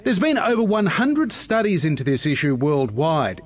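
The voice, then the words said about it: Australian accent. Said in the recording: “This is part of the debate from Australia. You can hear the accent there.”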